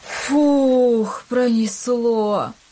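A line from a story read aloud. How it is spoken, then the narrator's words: Relieved exhale. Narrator (Russian): выдохнул Илья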